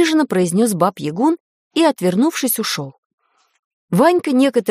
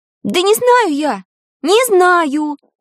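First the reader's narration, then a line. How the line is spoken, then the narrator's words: Shouted. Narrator (Russian): Крикнула Таня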